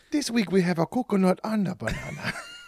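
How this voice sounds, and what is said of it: Put-on ethnic accent. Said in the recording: “Just do different ethnic accents for each subject.”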